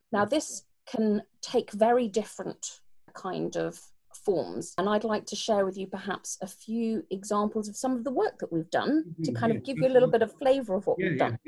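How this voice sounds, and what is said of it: British accent. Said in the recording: “you can probably tell by my accent that I'm British”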